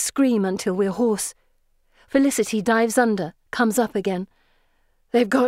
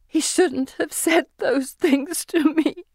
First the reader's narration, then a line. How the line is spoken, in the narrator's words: she says in great hiccuping cries